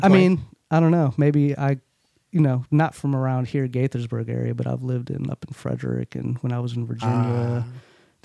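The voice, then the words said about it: Country accent with a twang. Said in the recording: “everyone told me I sound country ... you get a little twang ... how'd you get the twang, bro?”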